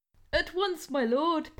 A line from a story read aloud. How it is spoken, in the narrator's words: Penny squeaked, thinking her career had peaked